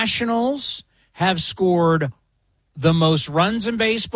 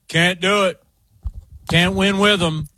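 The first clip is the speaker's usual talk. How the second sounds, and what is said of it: Imitates another person's voice. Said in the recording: “You want me to go Mike Singletary? ... That's a pretty good Mike Singletary impression.”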